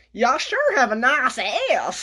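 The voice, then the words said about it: Put-on Southern accent. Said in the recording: “That's my southern accent, man.”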